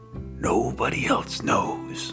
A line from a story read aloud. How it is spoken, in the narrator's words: whispered